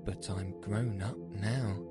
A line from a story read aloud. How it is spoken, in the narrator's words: she added in a sorrowful tone